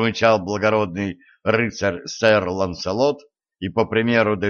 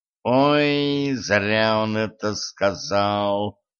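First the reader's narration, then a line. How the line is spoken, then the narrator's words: Groaning emperor. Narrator (Russian): простонал император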